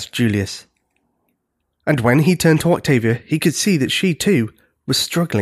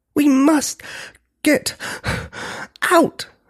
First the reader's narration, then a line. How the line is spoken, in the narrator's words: she panted